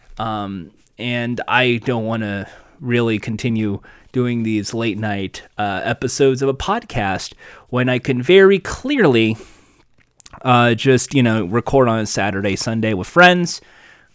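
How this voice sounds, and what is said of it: Hoarse, worn-out voice. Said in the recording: “my voice is just shot.”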